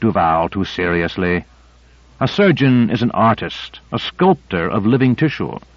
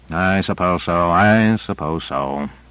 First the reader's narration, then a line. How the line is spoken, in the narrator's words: muttered Reed, but he was unmollified